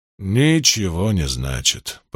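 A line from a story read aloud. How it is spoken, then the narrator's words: Sad summing up. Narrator (Russian): подытожил Ранд, печально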